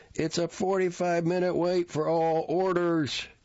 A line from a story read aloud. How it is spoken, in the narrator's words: an employee hollered